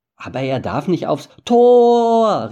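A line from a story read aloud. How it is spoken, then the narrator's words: Calling out. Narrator (German): rief Sam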